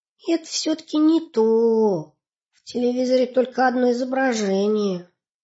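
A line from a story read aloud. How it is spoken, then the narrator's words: Heavy sigh. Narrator (Russian): Сипсик сказал, тяжело вздохнув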